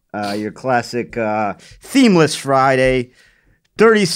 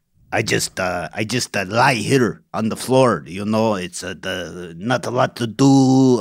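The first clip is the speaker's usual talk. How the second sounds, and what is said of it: Character voice of a talking rug. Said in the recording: “my impression of an accent rug”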